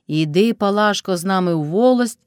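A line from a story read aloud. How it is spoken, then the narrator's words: Plain. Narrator (Ukrainian): сказав Кайдаш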